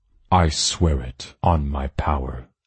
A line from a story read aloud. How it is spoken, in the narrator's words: he answered solemnly